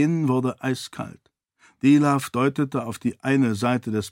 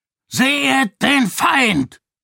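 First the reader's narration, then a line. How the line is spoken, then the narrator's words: Shouting. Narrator (German): schrie Dilaf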